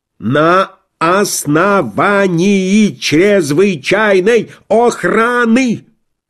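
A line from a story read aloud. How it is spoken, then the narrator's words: Angry braying shouting. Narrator (Russian): кричали, открыв рты, как два разозленных осла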